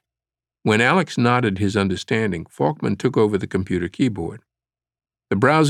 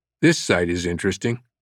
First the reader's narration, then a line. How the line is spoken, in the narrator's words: Falkman said, calmly